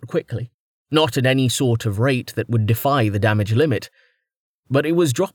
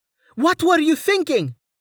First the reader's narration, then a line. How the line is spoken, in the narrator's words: Amelia screamed over the rushing wind